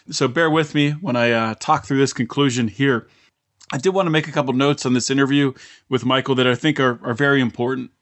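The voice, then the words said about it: Scratchy, partly lost voice. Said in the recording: “my voice is a little bit scratchy ... lost my voice a little bit”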